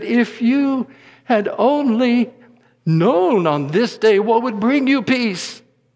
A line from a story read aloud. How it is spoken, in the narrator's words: Jesus sobbed and he said